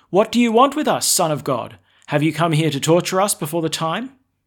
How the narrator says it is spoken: They stood there shouting

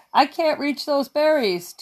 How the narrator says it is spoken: Two cried

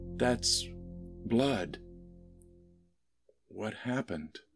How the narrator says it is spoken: Laura said, trying to keep her voice calm

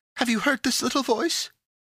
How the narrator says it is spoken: cried Pandora

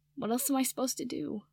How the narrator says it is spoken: Draco asked, his voice cracking

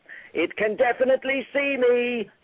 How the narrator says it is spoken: yelled Zyra

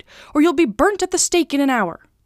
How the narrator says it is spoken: she cried

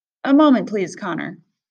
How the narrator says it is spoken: Miss Kwan said

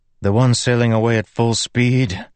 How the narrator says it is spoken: Kaladin said with a sigh

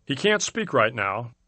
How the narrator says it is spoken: said

